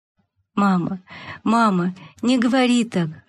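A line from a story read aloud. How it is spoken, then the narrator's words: Sobbing. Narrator (Russian): рыдала Маша, прислонившись головой к подушке матери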